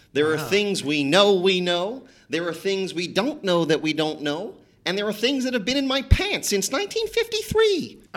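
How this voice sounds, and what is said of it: Imitates another person's voice. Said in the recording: “I did impressions ... I did my Rumsfeld.”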